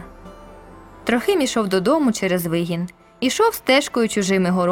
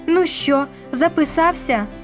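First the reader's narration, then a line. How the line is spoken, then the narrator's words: Strained anguished question. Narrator (Ukrainian): спиталася якимось надривним голосом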